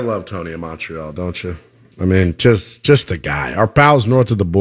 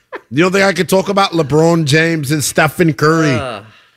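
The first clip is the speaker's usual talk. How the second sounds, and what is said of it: Put-on Canadian accent, not bad. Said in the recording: “You don't think that I have a Canadian accent? ... That's not bad. ... tell them how well I sound as a Canadian. I could pass.”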